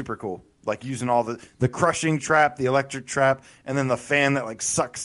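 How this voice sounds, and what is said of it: Usual voice. Nothing is said of it.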